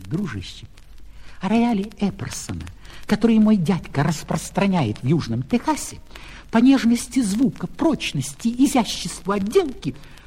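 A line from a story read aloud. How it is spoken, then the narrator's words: Whisper. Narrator (Russian): кондуктор шепнул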